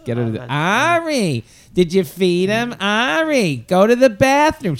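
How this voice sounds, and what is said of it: Impression of a yelling woman. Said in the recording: “this woman is yelling over the top of her to the husband all flight ... she does an impression of this”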